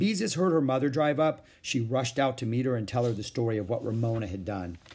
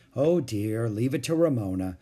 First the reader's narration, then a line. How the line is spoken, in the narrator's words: sighed Mother